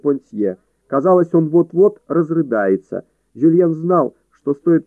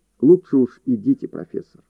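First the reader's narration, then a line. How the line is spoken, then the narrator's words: Soft. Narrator (Russian): мягко произнес он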